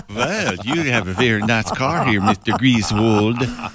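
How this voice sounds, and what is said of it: Put-on Swedish accent. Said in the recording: “it's Swedish chocolate ... That was the accent I was doing ... thought you were going German there”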